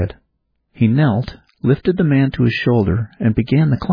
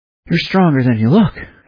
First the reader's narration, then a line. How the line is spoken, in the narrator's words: Adam said between gasps